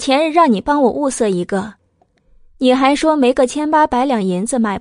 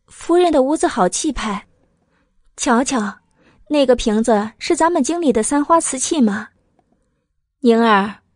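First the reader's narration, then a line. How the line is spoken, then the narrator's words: Smiling, amazed. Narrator (Chinese): 慕容九九笑容宛然，笑着，惊叹的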